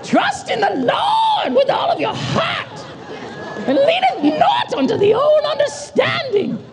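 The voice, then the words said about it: Put-on preaching voice. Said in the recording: “preacher voice ... that's the preaching voice I wanted”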